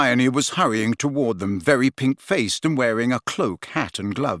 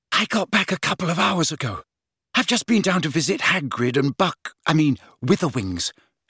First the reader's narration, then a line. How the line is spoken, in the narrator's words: she said breathlessly